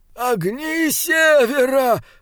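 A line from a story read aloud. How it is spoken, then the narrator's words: Groaning. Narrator (Russian): простонал Ернауга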